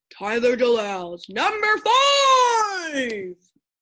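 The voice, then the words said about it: Booming announcer voice. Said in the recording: “my announcer voice”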